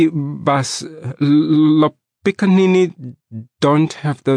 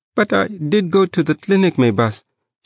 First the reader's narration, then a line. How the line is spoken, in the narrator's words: she pleaded in a trembling voice